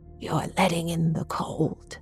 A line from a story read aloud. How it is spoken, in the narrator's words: she growled